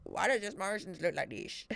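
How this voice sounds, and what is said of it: Put-on Camborne Cornish accent. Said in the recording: “Is that what you sounded like? Is that the Camborne accent?”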